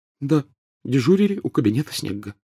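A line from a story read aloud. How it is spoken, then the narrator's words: Tearful whisper. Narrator (Russian): прошептала Гермиона, на глазах которой поблескивали слезы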